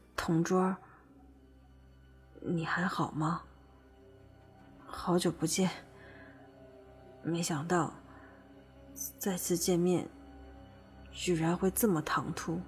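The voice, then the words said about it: Quiet, soft voice. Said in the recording (Chinese): “小声的说”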